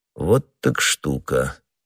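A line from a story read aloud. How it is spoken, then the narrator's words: Calm. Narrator (Russian): как всегда спокойно проговорил Атос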